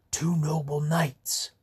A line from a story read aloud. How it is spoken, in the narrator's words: said in a hushed tone